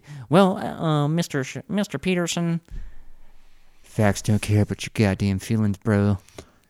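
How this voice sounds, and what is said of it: Imitates another person's voice. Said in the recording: “my best Ben Shapiro impression”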